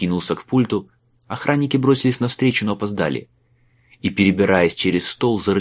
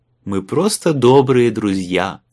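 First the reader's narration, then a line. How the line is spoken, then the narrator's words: False singsong, fake laugh. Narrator (Russian): фальшиво пропел Майлз и не менее фальшиво рассмеялся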